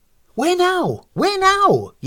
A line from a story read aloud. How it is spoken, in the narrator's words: yelled Mrs